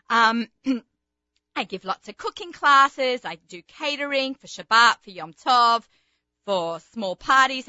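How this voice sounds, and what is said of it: Australian accent. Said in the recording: “Sometimes people know me as the ... because, you know, the accent”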